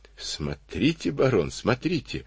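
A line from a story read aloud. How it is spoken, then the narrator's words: Admiring babble. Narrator (Russian): восхищенно пролепетал Карабанов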